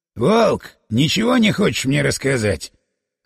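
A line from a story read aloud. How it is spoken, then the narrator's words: Deliberately quarrelsome question. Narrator (Russian): нарочито склочным голосом спросил шеф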